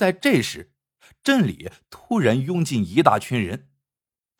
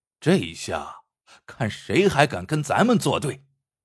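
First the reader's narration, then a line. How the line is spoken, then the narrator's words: Smiling. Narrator (Chinese): 马掌柜眯着眼笑道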